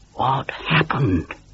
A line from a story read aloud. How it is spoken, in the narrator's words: breathed Nigel